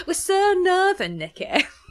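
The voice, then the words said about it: Poor put-on northern English accent. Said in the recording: “That's a terrible northern accent.”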